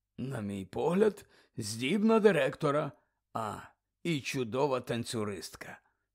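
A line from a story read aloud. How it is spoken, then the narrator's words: Quiet. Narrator (Ukrainian): тихо промовив Дамблдор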